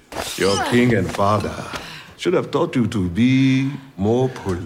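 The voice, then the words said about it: American actor doing African accent. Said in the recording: “he's the only American actor in this that can properly do and convincingly do an African accent”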